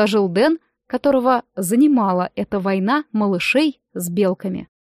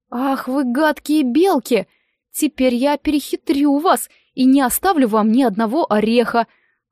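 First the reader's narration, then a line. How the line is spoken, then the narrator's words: Exclamation. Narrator (Russian): воскликнул Роб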